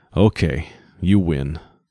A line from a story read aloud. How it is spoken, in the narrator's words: Caxton said sullenly